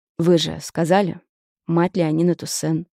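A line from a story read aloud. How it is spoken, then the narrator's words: Cold. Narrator (Russian): холодно бросил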